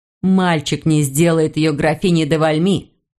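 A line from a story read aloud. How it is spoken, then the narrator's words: Plain. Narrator (Russian): сказал Жюль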